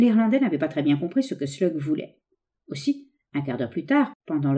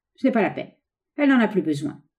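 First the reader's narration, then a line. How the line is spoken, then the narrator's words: Cold bandit. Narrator (French): répondit froidement le bandit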